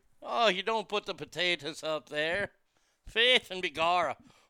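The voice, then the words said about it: Weak put-on Irish accent. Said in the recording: “I got to work on my Irish accent”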